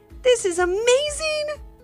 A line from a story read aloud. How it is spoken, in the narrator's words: exclaimed Ivy's mom